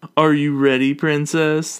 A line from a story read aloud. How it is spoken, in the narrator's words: the boy asks mockingly